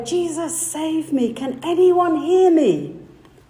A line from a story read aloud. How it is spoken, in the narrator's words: he cried out in prayer